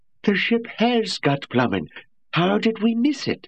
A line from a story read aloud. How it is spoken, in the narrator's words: it howled